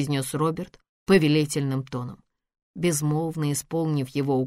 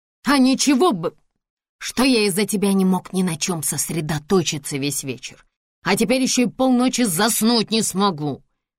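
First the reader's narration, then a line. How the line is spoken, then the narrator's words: Hiss. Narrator (Russian): прошипел он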